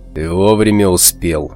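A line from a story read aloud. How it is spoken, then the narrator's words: Calm. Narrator (Russian): спокойно сказал рвач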